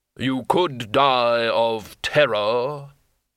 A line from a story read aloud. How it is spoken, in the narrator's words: the hood intoned